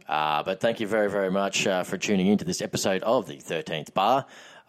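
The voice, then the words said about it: Low, deep radio-style voice. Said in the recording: “As you can tell by my voice, it's nice and low with the radio voice because I've been doing a hell of a lot of talking for my job”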